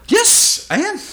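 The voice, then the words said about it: High-pitched excited voice. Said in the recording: “My voice has got really high. Yeah, I'm all excited about this.”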